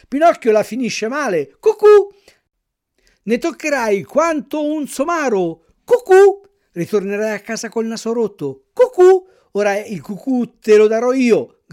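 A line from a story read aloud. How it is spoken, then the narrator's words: Shouted, bold boy. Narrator (Italian): gridò il più ardito di quei monelli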